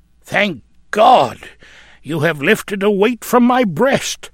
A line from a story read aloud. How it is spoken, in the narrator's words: exclaimed the elder man